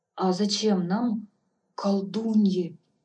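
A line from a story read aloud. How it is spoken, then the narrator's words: Timid. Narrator (Russian): робко спросила я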